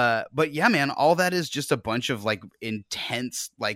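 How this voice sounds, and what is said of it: Usual voice. Nothing is said of it.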